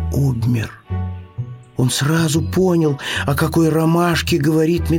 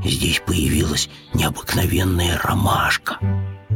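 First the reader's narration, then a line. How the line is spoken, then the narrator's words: Bear cub's whisper. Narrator (Russian): шепотом сказал медвежонок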